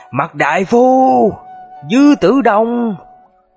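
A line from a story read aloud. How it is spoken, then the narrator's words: Angry and bitter. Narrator (Vietnamese): với điệu bộ giận dữ và thống hận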